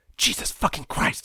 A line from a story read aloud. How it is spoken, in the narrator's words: hissed